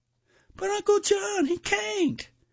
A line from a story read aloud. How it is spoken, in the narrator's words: cried Patrick, less in protest than as a plea